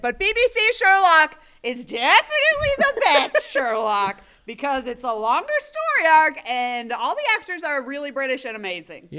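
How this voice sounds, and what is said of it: Shouting. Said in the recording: “now I'm supposed to shout because that's my new accent.”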